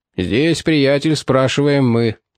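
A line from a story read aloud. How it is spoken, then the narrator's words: Booming drone. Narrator (Russian): прогудел Кости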